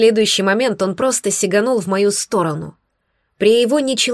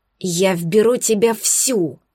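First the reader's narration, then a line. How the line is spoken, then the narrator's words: Hissed. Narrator (Russian): прошипел он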